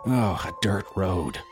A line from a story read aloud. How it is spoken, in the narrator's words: Bailey groaned